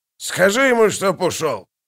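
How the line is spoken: Barking snap. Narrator (Russian): рявкнул он

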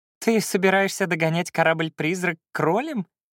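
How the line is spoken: Laughing. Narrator (Russian): рассмеялся Феликс

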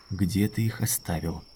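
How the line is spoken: Quiet. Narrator (Russian): сказал он тихо

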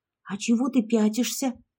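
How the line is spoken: Hissed. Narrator (Russian): прошипела я

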